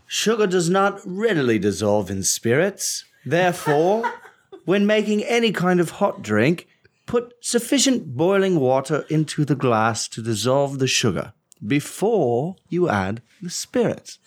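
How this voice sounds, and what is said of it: Old-timey English accent. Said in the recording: “you will read that excerpt in an old-timey English accent.”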